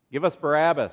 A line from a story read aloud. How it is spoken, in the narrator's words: they said